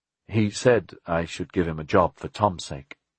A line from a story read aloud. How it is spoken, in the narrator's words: Jack said nervously